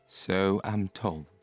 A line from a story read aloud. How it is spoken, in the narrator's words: said John gloomily